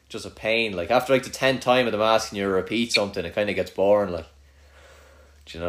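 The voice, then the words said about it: Strong regional accent. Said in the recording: “you've such a strong accent”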